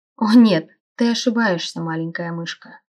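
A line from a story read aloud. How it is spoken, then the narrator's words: Purring. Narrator (Russian): промурлыкал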